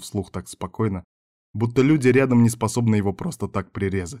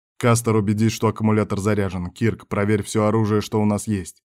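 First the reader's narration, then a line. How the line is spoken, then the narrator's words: Cold command. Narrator (Russian): холодно приказал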